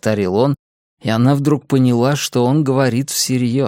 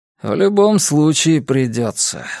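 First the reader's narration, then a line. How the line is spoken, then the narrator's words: Sighing. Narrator (Russian): вздохнул он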